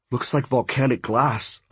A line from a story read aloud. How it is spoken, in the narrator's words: I muttered